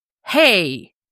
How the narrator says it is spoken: Stephanie snaps back at him

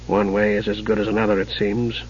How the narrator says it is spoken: muttered Raistlin in an ill humor

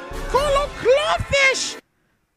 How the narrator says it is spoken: The Gungan shrieked

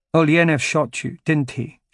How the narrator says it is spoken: she said

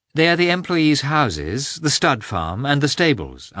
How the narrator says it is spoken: answered Anna

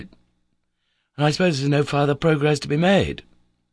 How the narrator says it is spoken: hopefully exclaimed

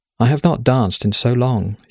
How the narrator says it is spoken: she said wistfully

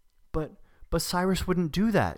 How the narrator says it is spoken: she said, her voice high and trembling

